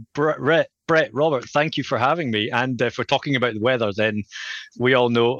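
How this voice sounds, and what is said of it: Scottish accent. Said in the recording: “if you just can tell from my accent, I'm from Scotland”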